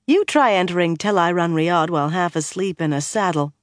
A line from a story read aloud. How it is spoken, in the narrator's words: Egwene said dryly